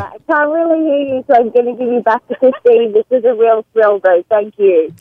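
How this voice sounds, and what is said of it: Australian accent, hard to understand. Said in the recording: “Boy, it's hard to understand. ... Cell phone and the Australian accent are working fantastically together.”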